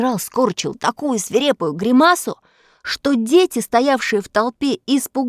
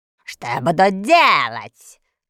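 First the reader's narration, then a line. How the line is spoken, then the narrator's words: Hoarse deep bass. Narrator (Russian): хрипло пробасил полководец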